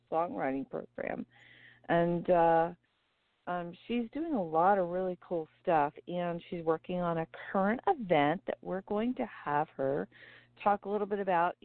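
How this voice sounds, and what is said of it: Strained, failing voice. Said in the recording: “my voice is going a little bit today”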